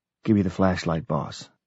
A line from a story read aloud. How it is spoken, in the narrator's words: In my ear whispered